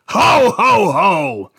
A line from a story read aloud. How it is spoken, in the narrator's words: boomed with a smirk